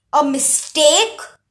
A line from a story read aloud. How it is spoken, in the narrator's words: Hades roared